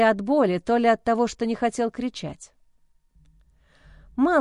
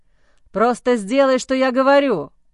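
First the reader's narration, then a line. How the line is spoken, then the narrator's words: Barked. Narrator (Russian): Рявкнул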